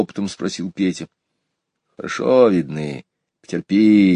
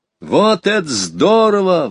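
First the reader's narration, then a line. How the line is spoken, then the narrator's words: Delighted exclamation. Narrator (Russian): в восторге воскликнул Петя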